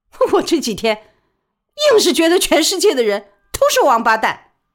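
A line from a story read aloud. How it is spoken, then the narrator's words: Laughing. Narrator (Chinese): 李宝莉笑起来，说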